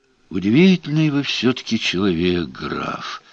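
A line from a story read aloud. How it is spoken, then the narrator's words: Sighing, reproachful or regretful. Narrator (Russian): вздохнул Гаудин, и непонятно было, то ли с укором вздохнул, то ли с сожалением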